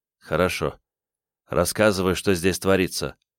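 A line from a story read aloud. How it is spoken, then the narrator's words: Quiet sighing speech. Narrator (Russian): вздохнул и тихо сказал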